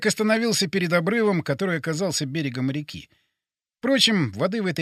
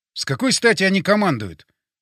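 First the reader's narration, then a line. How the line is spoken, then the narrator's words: Indignant question. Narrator (Russian): возмущенно спросил я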